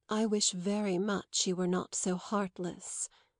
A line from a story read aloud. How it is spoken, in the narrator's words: Madame Merle quietly said